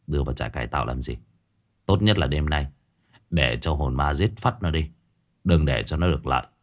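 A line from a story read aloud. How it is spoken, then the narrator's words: Muttering. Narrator (Vietnamese): Trương Dịch lẩm bẩm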